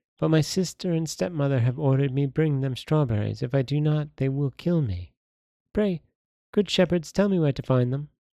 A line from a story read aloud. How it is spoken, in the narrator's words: said the girl sadly